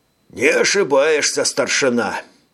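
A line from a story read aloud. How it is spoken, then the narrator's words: Sighing. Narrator (Russian): вздохнул Танжер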